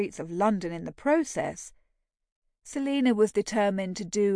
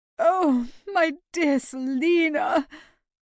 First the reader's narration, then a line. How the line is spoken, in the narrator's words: wailed